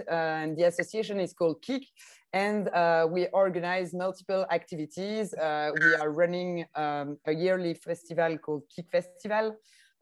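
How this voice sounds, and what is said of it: French-speaking Belgian accent. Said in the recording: “in the French-speaking part of Belgium as well, as you can hear with my accent”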